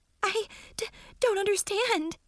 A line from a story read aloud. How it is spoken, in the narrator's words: she stammered